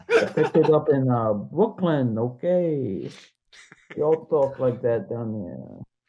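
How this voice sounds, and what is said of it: Put-on Italian-American accent. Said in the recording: “that weird Italian accent”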